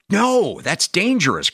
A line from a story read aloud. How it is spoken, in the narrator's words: cried Boomer